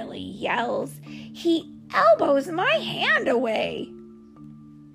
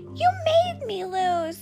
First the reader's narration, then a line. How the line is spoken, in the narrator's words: he yells